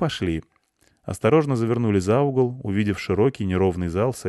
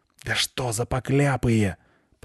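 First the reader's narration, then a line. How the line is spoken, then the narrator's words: Hissed. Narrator (Russian): прошипела Лайса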